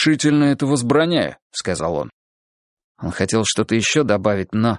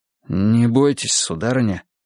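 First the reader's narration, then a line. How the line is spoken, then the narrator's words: Soft, hushed voice. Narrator (Russian): мягко приглушив голос, проговорил Олег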